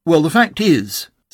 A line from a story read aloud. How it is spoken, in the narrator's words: said Pooh